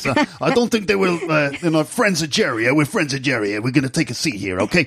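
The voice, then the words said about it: Mafia-style New York voice. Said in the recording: “You can do a good mafia accent. ... I could do a mafia voice like this.”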